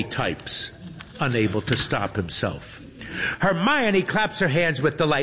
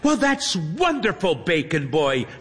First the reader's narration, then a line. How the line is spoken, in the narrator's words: she exclaims